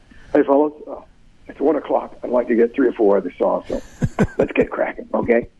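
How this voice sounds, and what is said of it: Deeper, lower macho imitated voice. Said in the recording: “a much deeper voice. He put on his macho voice ... that lower Elvis Presley persona”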